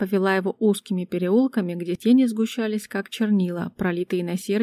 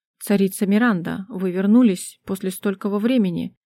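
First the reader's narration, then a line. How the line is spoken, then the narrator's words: Guard's growl. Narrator (Russian): Прорычал один из стражей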